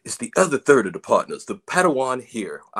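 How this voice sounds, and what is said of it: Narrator voice. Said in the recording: “I don't know why I'm using the narrator voice, but it is funny.”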